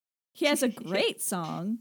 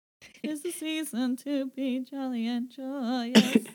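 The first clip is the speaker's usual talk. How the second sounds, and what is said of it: Singing in a weird Kermit-like voice. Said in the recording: “Why are you singing it like that? ... Is that your Kermit? ... that's a little bit of a weird impression.”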